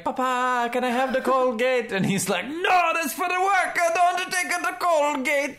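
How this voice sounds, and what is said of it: Put-on Italian accent. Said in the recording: “speaks Italian and finds that accent just wildly offensive”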